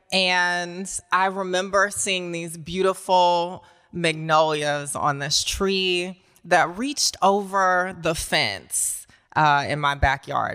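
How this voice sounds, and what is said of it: Southern American accent. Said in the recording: “if you can't tell from the accent yet, I'm a Southern girl”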